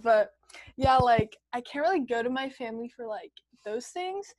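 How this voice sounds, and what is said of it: Voice close to crying. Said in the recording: “why does my voice sound like I'm about to cry?”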